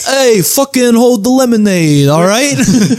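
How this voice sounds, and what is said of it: Put-on New York accent. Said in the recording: “New York accent?”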